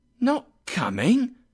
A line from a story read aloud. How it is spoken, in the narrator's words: exclaimed Bob